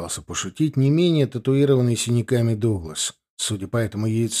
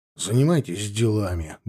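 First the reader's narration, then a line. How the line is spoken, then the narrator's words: Gruff mutter. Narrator (Russian): буркнул Крит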